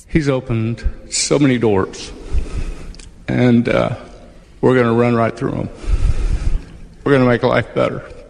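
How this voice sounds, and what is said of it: Emotional, choked-up speech. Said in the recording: “Getting emotional”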